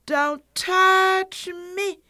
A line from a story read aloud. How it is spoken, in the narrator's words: cried the little fairy-like being